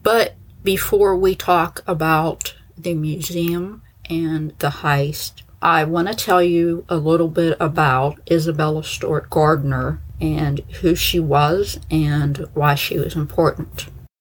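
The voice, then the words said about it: Pittsburgh accent. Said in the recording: “the usual Pittsburgh accent, which I know can be problematic”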